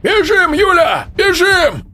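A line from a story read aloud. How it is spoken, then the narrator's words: Shouting over noise. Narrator (Russian): закричал он, стараясь перекрыть шум борьбы и звуки, доносящиеся с пола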